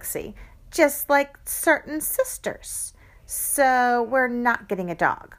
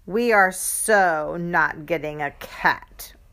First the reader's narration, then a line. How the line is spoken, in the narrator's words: I growled